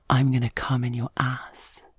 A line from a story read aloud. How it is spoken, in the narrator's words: he whispers in my ear